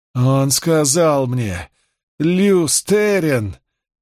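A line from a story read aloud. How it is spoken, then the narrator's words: Almost moaning. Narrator (Russian): чуть ли не простонала Ланфер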